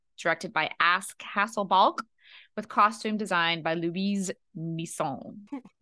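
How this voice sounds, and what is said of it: Put-on French accent. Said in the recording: “That accent was free ... It was a little français”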